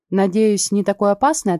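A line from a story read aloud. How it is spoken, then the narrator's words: Plain. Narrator (Russian): ответил Лео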